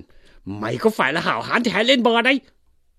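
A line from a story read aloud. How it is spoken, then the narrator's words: Shouting. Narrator (Vietnamese): Lý Quỳ cũng quát lên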